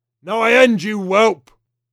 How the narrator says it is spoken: Hugarth bellowed in an unnatural volume, as though Georges were 5 miles distant

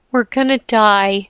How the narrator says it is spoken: wailed

